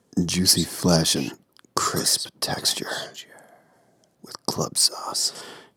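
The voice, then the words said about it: Put-on sexy voice. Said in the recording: “my sexy voice”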